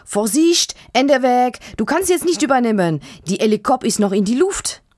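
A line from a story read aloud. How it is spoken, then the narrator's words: Called out. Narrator (German): ruft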